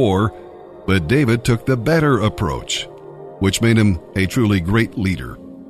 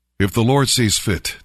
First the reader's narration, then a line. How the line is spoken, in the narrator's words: David said